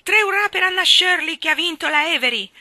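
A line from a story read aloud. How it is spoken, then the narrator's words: Shouted. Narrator (Italian): qualcuno gridò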